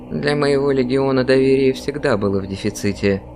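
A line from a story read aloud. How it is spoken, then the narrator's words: Quiet reply. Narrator (Russian): тихо ответил я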